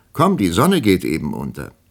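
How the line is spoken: Called into the room. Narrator (German): rief sie in das Zimmer hinein

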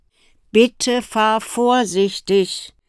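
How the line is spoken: Mother calling after. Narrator (German): rief ihre Mutter nach

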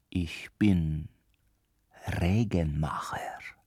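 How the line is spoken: Quiet. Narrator (German): sagte Petrus leise

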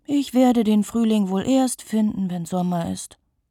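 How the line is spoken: Sighing. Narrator (German): seufzt Lisa und fühlt, wie ihr Körper schwerer wird

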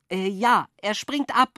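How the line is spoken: Excited shout. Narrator (German): rief ich begeistert

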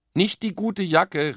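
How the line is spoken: Mother calling after. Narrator (German): rief Mama nach

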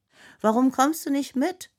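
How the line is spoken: Calling to someone. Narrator (German): ruft Ainoa zu ihr

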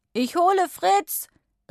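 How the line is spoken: Calling back. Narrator (German): rief er zurück

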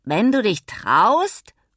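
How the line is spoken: Grandmother calling back. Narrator (German): ruft Oma zurück

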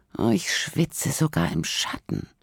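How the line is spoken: Groaning. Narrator (German): stöhnt Paula

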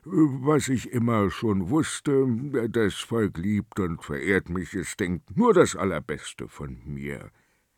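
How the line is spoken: King, quiet, head lowered. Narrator (German): Der König senkte den Kopf und sagte leise

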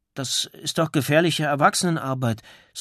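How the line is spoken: Hesitant. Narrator (German): sagte zögernd

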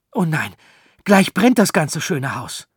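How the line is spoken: Frightened cry. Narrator (German): rief Arthur erschrocken

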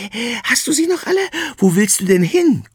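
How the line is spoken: Breathless panting. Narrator (German): keucht

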